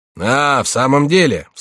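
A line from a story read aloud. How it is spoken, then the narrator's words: Cheerful loud exclamation. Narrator (Russian): вскричал кто-то, весело и шумно вошедший в комнату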